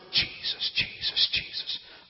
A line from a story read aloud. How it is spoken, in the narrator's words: her whisper